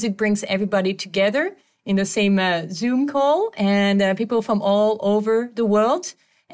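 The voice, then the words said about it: Mixed French-influenced accent. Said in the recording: “I'm a French national, moved to Canada in the Quebec part, now live in South America. So my accent is a little mixed up”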